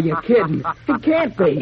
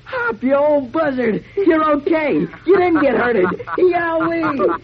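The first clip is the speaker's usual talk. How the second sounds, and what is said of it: Loud excited shouting. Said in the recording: “not so loud. You'll wake the neighbors.”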